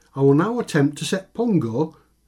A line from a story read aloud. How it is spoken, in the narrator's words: shouted Mickey